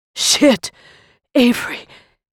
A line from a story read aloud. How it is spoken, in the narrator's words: Jonas gasps